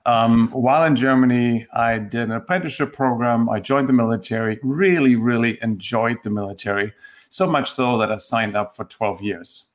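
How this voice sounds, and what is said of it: German accent. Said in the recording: “I grew up in Germany, and I don't think that comes as a surprise just hearing my accent.”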